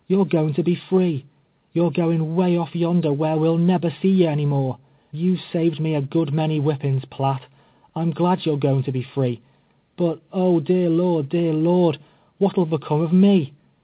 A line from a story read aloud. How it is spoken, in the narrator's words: she cried, tears streaming down her face